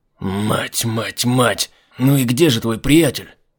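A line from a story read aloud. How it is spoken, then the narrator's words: Hiss. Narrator (Russian): прошипел Айзек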